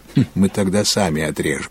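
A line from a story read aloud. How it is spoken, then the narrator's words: Laughing. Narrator (Russian): засмеялся Филипп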